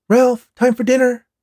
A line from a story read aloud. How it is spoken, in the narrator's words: Ralph's mom shouted from the front door